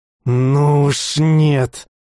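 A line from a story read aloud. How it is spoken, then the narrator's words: Hissed through teeth. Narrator (Russian): прошипел сквозь зубы Бер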